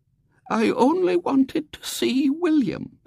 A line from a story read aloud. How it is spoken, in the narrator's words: said Great Aunt Jane feebly